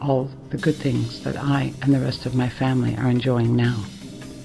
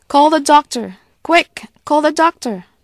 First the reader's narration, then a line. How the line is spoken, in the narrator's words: Aunt Nena shouted to no one in particular